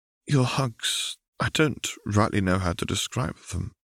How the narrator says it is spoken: Daphne murmured

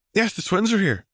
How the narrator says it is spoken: Luna was happily telling Angelina

